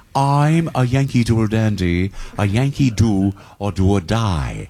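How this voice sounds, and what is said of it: Imitates another person's voice. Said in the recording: “my James Cagney impression”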